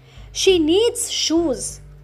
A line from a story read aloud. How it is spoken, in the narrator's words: the cobbler said